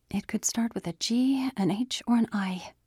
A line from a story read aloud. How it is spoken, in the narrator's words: she whispered